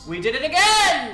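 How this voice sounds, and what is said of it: Excited full-on yelling. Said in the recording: “you're yelling. ... That's full on yelling.”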